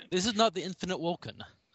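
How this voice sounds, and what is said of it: Poor Chekhov Russian accent impression. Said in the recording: “That's more Scotty than Chekhov, I think... Well, I can't do accents... Try and keep the same accent... Oh, we're all terrible.”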